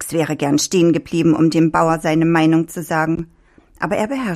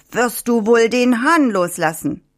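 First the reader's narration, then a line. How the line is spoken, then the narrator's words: Calling out while chasing. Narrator (German): Der Bauer verfolgte ihn weiter und rief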